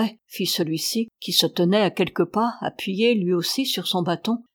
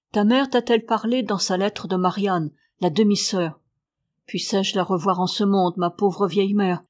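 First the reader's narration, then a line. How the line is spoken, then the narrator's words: Grumbled. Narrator (French): grommela Mathurin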